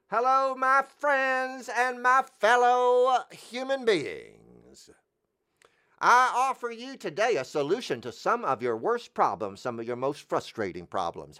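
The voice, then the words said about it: Loud, dramatic salesman barker voice. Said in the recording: “in a loud and compelling and dramatic voice”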